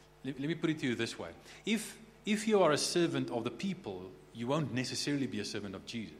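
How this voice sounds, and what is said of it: Usual voice. Nothing is said of it.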